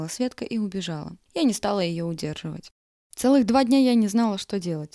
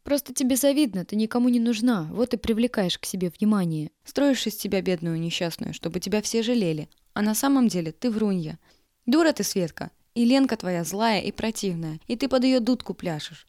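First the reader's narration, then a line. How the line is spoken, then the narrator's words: Plain. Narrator (Russian): сказала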